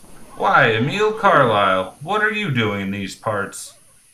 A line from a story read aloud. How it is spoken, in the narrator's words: a rough, familiar voice called out